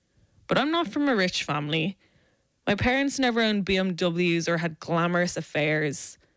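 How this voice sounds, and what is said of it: South Dublin Irish accent. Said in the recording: “I have the voice. I have a South Dublin accent. I'm speaking it right now. ... It's annoying. It's grating.”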